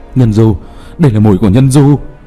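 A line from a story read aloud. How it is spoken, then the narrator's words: Exclaiming. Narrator (Vietnamese): Một pháp sư kêu lên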